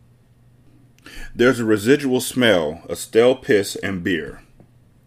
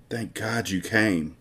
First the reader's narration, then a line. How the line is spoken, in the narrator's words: she whispers in his ear